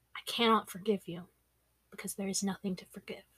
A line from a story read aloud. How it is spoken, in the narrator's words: said softly